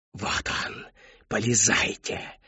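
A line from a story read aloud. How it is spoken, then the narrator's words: Whispered command. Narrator (Russian): Шепотом приказала она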